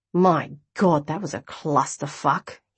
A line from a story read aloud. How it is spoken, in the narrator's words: he groaned